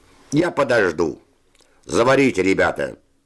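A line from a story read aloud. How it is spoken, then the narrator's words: Plain. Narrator (Russian): сказал Наумов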